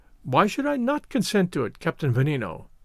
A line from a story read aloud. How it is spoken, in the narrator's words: answered Augustus, with a peal of laughter